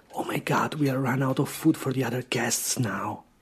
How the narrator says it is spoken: the host whisper in his wife's ear

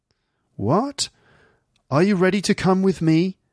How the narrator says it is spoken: asks kindly

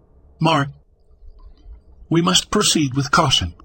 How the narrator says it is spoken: Sarah said, her voice tinged with concern

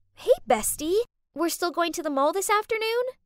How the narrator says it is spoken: Chloe excitedly said

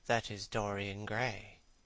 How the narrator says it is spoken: whisper

